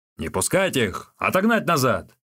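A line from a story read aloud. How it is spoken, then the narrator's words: Shout. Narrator (Russian): начальник Цай закричал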